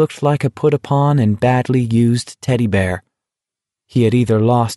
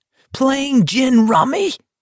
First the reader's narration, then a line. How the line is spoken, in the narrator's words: He screamed at the top of his lungs